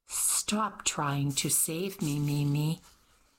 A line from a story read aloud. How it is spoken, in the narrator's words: she sighed